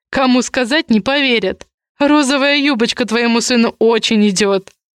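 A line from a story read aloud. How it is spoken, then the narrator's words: Laughing. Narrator (Russian): Камул рассмеялся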